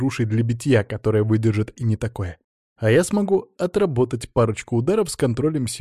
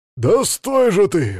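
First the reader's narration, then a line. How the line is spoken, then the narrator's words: Enraged man roaring. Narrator (Russian): взревел взбешенный парень, выглядящий как мужчина за 40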